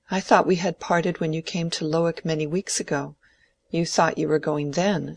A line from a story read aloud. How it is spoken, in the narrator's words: said Dorothea, her voice trembling a little